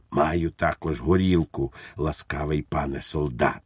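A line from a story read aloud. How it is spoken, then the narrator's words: Whispered. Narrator (Ukrainian): пейсатий пан прошепотів йому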